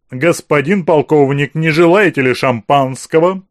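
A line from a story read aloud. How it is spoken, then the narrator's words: Theatrically loud question. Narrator (Russian): театрально громко спросил хозяин всего этого богатства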